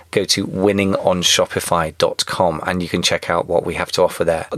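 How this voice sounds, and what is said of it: British accent. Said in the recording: “got the British accent”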